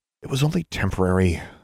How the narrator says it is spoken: Alexandra sighed

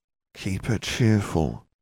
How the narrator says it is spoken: she murmured

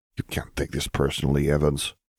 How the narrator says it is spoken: Fedorov whispered

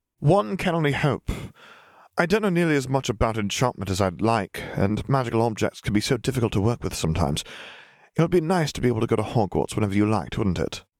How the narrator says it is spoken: Tom said, his tone wistful at the end

